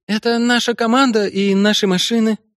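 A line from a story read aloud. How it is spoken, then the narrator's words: Trembling voice. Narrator (Russian): пояснила та дрогнувшим голосом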